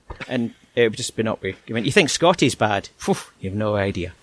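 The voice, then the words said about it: Toned-down Scottish accent. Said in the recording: “I am Scottish, as you can tell by my natural brogue. And I have to admit, I am trying to change my accent”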